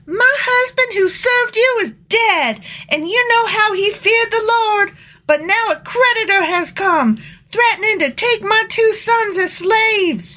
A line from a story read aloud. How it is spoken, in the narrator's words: The widow of a member of the group of prophets came to Elisha and cried out